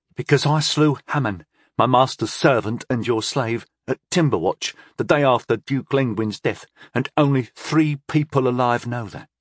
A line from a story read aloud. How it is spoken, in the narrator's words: Tyndall replied evenly